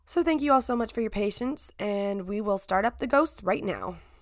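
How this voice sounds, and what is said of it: Weak voice from a cold. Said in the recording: “my voice sounds a lot worse than I feel. I was fighting off a really bad cold again ... It's just my voice is a little weak”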